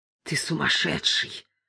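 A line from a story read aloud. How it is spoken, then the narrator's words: Stammering mutter. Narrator (Russian): пробормотал, заикаясь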